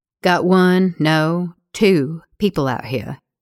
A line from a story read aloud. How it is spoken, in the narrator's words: Gabe says